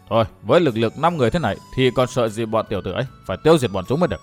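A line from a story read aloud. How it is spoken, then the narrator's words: Muttering. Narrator (Vietnamese): Khâu Vũ lẩm bẩm nói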